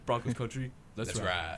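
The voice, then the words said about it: Deep put-on voice. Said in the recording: “doing the voice ... Deep.”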